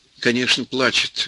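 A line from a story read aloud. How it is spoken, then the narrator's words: Plain. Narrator (Russian): говорит Ванька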